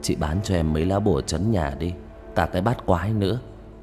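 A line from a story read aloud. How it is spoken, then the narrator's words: Whisper. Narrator (Vietnamese): An thì thầm với bà Kim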